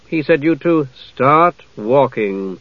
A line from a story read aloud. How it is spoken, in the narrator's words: Jenna said somewhat grimly